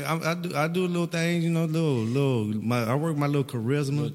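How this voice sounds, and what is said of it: Speaks with an accent. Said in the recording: “it's the accent, man. They tell me I have an accent.”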